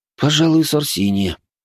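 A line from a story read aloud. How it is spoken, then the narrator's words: Sighing. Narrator (Russian): вздохнул я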